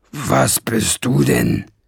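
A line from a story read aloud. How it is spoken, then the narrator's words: Growl. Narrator (German): knurrte an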